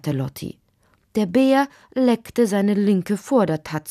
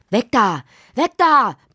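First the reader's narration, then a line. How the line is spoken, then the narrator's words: Roaring. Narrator (German): brüllte Lottis Vater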